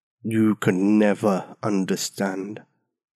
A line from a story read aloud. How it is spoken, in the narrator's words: As if he had all the time in the world, the giant slowly rolled out